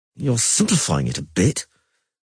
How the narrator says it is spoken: Yara said through clenched teeth

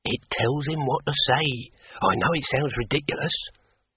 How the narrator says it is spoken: muttered Hugh

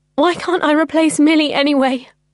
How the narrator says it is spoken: I sobbed

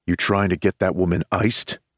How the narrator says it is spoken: I growl beneath my breath

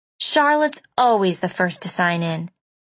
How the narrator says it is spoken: she had said

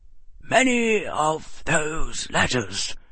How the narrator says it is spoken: the old wizard said quietly

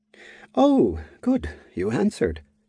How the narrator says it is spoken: Jordan said with a sigh of relief

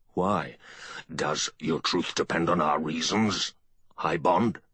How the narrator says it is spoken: Bretan asked, harshly

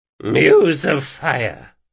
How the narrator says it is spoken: grunted Farragher

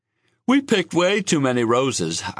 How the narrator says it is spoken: I said, yawning

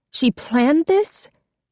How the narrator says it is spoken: Jessica said, her voice rising

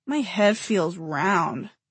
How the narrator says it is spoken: Simon said sadly

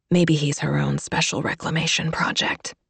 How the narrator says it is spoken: Kate whispered back

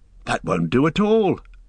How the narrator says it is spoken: cried Merry

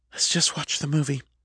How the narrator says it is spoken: Val whispered

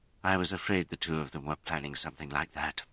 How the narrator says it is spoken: she said bitterly

